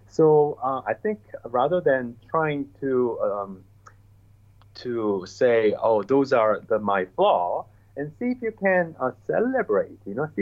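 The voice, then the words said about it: Asian-accented English. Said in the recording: “my English, had a lot of accent. I still do ... my own accent ... I have an accent because I am from Asia. You know, I did not grew up in the U.S. or in the U.K.”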